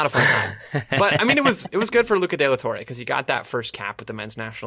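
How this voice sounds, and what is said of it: Usual voice. Nothing is said of it.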